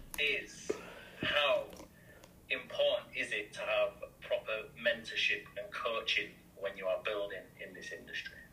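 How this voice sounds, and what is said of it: British accent. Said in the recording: “for those of you who are British accent challenged”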